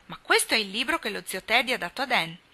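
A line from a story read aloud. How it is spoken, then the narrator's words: Surprised exclamation. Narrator (Italian): Demi esclamò, vedendone il contenuto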